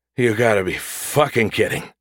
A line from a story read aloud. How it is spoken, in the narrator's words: he croaked